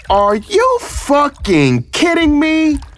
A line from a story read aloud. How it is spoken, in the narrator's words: I screamed